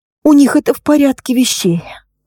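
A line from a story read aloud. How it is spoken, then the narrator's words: Sigh. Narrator (Russian): вздохнула Лина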